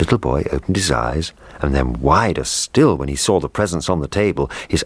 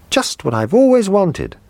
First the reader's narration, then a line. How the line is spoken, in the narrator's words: he cried